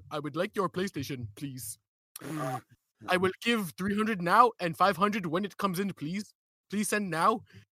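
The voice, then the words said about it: Put-on Indian or Ethiopian accent. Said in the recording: “you do an Indian accent? ... Like Ethiopian or something.”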